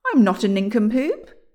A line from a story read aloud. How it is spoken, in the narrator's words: exclaimed William